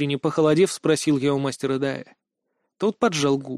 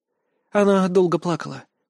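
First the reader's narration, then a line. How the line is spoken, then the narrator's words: Ragged sigh. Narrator (Russian): прерывисто вздохнула Ланна Оми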